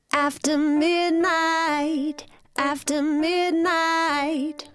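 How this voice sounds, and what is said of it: Sung in slightly American accent. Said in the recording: “we are singing in a slightly American accent.”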